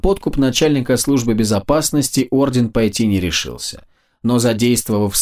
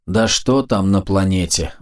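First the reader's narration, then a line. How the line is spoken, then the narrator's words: Sigh. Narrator (Russian): вздохнул советник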